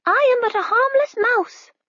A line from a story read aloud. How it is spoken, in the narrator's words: the spy squealed